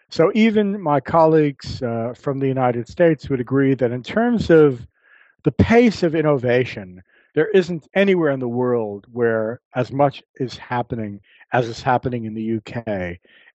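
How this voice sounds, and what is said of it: Non-local accent. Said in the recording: “You can probably tell by my accent that I didn't grow up here.”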